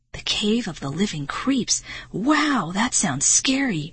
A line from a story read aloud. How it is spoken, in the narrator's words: Marty exclaimed